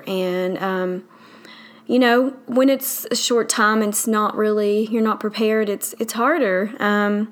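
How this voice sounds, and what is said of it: Southern US accent. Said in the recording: “I live in the South, obviously from my accent.”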